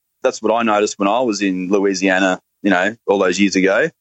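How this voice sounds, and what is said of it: Australian accent, fast speech. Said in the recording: “Australians all sound the same ... Our accent is very much, a product of our physical location down here ... Australians talk very fast”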